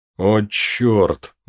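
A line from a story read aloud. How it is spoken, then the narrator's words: Groaning. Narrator (Russian): застонал Мартин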